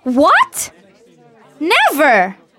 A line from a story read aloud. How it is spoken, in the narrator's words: shouted Laura